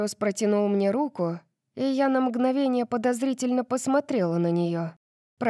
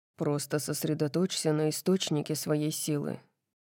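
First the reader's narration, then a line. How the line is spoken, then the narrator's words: Mumble. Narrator (Russian): пробормотал он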